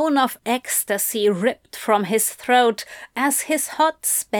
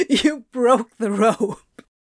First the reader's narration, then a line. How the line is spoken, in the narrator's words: Crowley gasped out his explanation, a hand at his stomach, as he struggled to fight back the hysterical giggles bubbling up from within